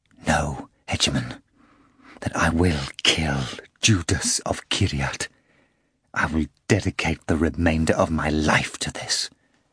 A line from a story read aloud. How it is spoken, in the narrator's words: Levi whispered